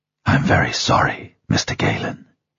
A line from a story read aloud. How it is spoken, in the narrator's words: says softly